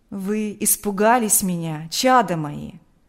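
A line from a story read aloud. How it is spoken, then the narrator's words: Gentle affectionate question. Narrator (Russian): ласково спросил он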